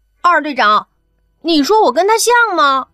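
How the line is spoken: Loud question. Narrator (Chinese): 大声问楚灵

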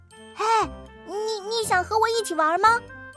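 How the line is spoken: Loud, effortful shout. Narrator (Chinese): 我憋足力气，大声的喊

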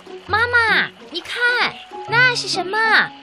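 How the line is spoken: Little hippo loud shout. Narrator (Chinese): 小河马大声地喊道

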